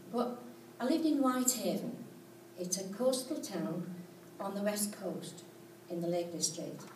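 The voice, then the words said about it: Non-local regional accent. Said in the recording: “As you probably can gather by the accent, I don't come from here.”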